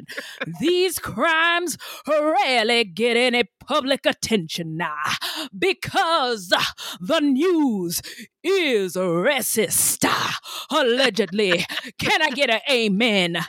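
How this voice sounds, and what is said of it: Imitates another person's voice. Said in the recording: “my Martin Luther King impression”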